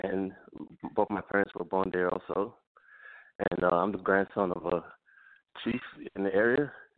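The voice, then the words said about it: Slight accent. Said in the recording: “you have a slight accent.”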